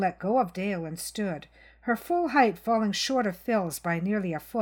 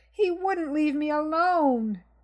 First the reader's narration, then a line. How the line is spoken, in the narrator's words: Dale began to wail uncontrollably